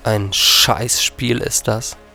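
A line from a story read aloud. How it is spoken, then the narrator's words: Hissing through teeth. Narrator (German): zischte durch die Zähne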